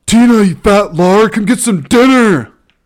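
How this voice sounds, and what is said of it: Deliberately poor imitation of another's voice. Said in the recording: “terrible John Heater impersonation”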